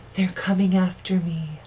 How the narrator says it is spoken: she whispered

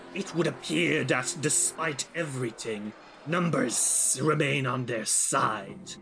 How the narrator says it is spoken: Elvora kind of hisses and says

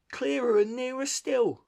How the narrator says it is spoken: cried the Rat joyously

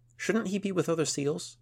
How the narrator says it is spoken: asked Yadith

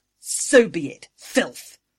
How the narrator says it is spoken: Angui snarled

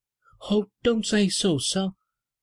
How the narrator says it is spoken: she exclaimed, with a burst of passion amounting almost to frenzy

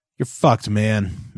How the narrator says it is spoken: Matthew said bitterly

